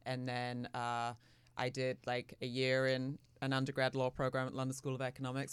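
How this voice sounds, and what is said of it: Mixed, partly faded London accent. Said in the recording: “where's your accent from? I love it. ... My accent is so mangled now. I grew up in London”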